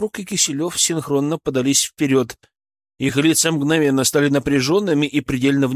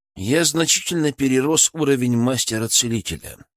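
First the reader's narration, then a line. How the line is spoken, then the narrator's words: Calm statement. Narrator (Russian): спокойно констатировал я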